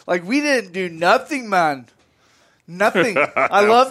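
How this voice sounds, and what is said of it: Bad put-on Jamaican accent. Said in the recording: “the worst Jamaican accent I've ever heard.”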